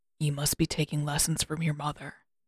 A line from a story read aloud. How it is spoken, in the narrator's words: he said quietly